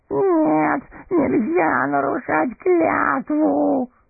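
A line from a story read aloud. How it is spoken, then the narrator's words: Whimpering. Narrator (Russian): хныкал первый голос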